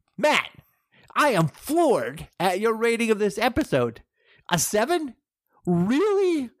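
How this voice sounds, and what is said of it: Outraged reading voice. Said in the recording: “I'm going to read this in an outraged tone of voice.”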